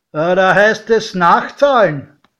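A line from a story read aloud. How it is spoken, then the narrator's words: Called out. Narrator (German): rief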